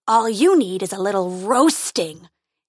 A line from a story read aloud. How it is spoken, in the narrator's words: he roared